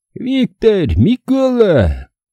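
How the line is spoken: Fighter's shriek. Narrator (Russian): взвизгнул было боевик

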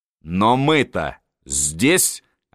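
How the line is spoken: Plain. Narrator (Russian): ответил

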